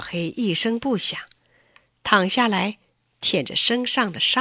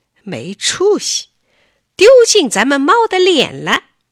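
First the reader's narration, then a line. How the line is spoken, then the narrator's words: Mocking. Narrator (Chinese): 大黄取笑他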